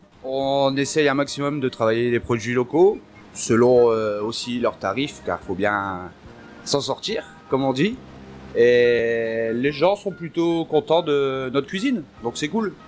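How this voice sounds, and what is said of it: Slight northern French accent. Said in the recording (French): “Vous avez un petit accent... Alors je viens du Nord-Pas-de-Calais, plus précisément Gravelines.”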